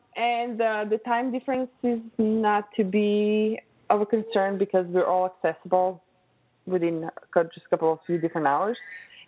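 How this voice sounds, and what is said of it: Noticeable accent. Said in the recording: “I think my accent is enough of a challenge sometimes.”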